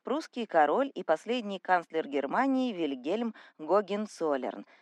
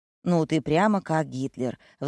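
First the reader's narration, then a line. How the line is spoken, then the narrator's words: Sighing. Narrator (Russian): вздохнул Кирилл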